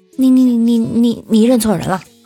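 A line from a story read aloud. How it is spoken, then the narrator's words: Stammering. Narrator (Chinese): 那哥们儿结结巴巴的说了一句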